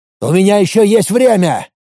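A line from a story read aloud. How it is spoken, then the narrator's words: Straining shout. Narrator (Russian): выкрикнул, пытаясь вырваться из западни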